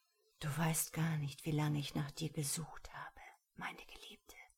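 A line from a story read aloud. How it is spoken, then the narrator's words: Whisper between kisses. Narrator (German): flüsterte er zwischen den Küssen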